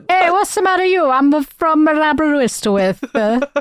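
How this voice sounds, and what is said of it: Put-on Italian accent sounding Welsh. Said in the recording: “whenever he tries to do an Italian accent, it also sounds Welsh”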